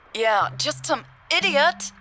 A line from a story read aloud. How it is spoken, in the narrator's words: Hannah said, raising her voice for the last word